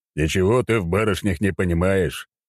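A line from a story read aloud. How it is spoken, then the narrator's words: Deep bass reply. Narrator (Russian): пробасил ей в ответ Громобой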